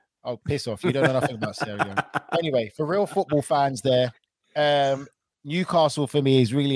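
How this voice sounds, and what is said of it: Usual voice. Nothing is said of it.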